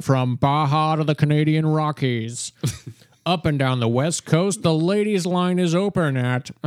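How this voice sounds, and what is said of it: Imitates a sports radio host's voice. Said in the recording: “I'm doing a terrible impression ... he is like a sports talk radio host in Southern California”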